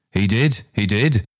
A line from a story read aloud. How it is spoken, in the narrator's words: cried Mrs